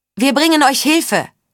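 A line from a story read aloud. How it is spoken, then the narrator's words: Called, then in spirit's voice. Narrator (German): rief und wiederholte es dann mit der Stimme des Lügengeistes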